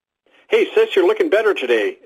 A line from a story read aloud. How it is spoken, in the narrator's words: exclaimed a paunchy man